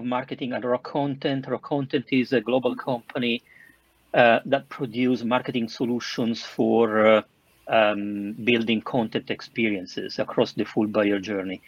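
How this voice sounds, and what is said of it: Southern Italian accent. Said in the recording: “I'm Italian, as you can probably understand from my southern accent.”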